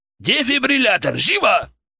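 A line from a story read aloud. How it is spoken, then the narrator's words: Urgent barked command. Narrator (Russian): рявкнул Гагеберидзе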